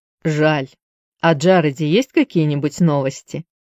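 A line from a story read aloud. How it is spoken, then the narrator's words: Plain. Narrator (Russian): спросил он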